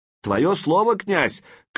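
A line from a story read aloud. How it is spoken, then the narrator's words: Shouting after someone. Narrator (Russian): крикнул ему вслед Сварк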